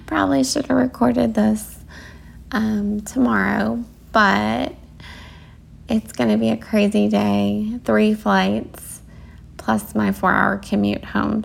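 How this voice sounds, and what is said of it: Tired-sounding voice. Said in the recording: “it is midnight now. I definitely can tell. I can hear it in my voice. You probably can hear it too.”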